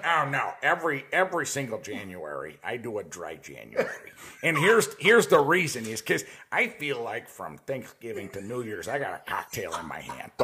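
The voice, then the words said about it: Dan Aykroyd-like impression. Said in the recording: “I'm going to do his voice because this guy had the most amazing... He was like my real life personal Dan Aykroyd.”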